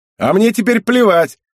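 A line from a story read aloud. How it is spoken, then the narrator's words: Loud, angry, gloating. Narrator (Russian): возвестил он громко, зло и где-то даже злорадно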